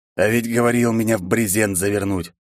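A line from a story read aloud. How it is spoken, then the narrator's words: Sudden husky voice behind. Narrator (Russian): Хрипловатый голос, неожиданно раздавшийся из-за спины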